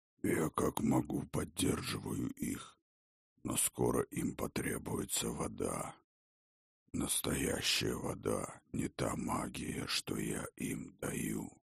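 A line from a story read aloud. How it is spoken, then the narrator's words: Deep bass, giant. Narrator (Russian): пробасил великан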